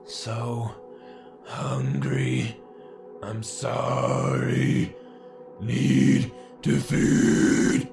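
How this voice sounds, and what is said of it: Raspy demonic whisper with deep inhales. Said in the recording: “The voice was like a raspy whisper, but also demonic. Between every word, the beast took a deep inhale ... its nails on the chalkboard voice, the light yet spectral tone”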